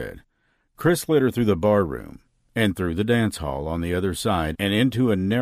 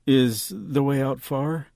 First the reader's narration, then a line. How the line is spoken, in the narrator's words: she asked quietly, scared someone or something would hear them